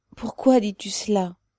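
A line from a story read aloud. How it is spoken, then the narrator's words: Anguished mother's question. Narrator (French): demanda la mère d'une voix angoissée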